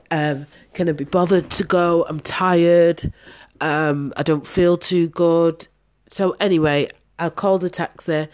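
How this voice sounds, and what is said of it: Congested, sick-sounding voice. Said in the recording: “Sorry, guys, I've got a cold.”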